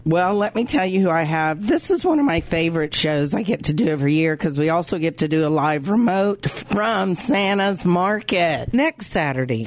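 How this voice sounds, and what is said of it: Hoarse, deep, failing voice. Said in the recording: “Laryngitis ... I don't feel sick, but my voice is going ... my voice decided to take a holiday ... I kind of sound like a dude”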